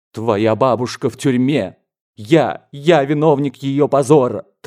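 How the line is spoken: Tragic shouting man. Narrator (Russian): трагическим голосом закричал дядя

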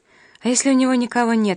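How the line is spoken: Indignant exclamation. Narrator (Russian): воскликнула Нина, которой хотелось хоть кому-нибудь высказать возмущение местными порядками

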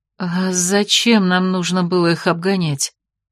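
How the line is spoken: Reasonable question. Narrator (Russian): задала законный вопрос Алифания

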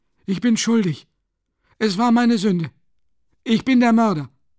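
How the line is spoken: Sudden, breathless, fairly loud. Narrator (German): sagte plötzlich Nikolai ein wenig atemlos, aber mit ziemlich lauter Stimme

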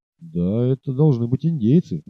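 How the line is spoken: Muttered. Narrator (Russian): пробормотал Сиген

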